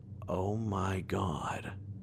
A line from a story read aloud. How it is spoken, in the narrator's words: I mutter